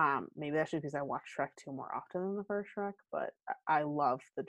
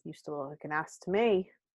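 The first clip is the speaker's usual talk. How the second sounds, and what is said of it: Poor Spanish accent drifting British. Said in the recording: “my attempt at a Spanish accent. Ooh, that was terrible. ... all my accents go British”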